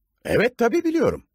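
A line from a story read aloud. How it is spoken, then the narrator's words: Doctor, somewhat harsh. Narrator (Turkish): dedi doktor biraz sert bir sesle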